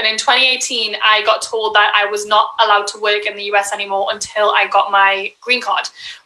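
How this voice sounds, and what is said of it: Foreign, non-American accent. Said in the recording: “if you can't tell by my accent, I'm not from here”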